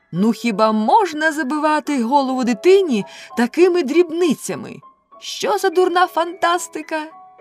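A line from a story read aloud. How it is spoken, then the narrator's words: Doll's loud shout. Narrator (Ukrainian): лялька голосно закричала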